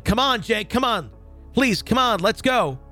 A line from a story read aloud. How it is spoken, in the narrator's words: I started yelling